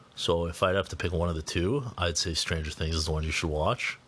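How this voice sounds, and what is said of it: Raspy, hoarse voice. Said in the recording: “sorry for my voice. It's a little like raspy and hoarse.”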